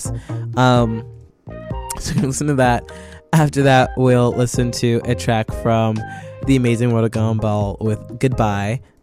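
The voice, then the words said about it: Hoarse voice. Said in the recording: “My throat is hoarse”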